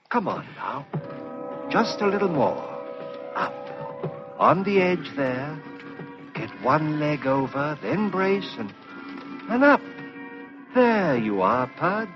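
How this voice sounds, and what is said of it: Whispering voice. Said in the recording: “why do you make your voice so whispering”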